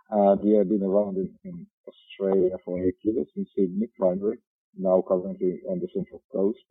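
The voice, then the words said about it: Finnish accent in English. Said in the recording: “I'm from Finland, therefore this beautiful rally driver accent of mine”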